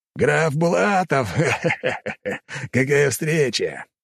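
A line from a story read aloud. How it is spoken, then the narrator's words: Laughing captain. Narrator (Russian): рассмеялся капитан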